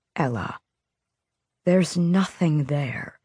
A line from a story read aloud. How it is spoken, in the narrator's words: he said softly